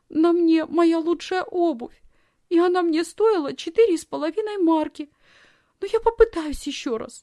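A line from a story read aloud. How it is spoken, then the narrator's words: Sobbing. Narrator (Russian): Тут Лисхин принялась всхлипывать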